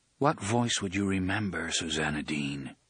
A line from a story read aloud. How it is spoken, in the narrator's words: Roland asked in a low, musing voice